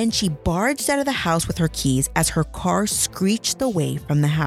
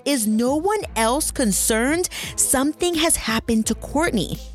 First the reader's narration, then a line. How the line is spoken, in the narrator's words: Carol yelled